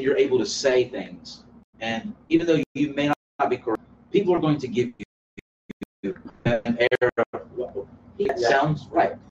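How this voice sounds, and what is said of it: Southern US accent. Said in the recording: “I have a southern ring to my voice”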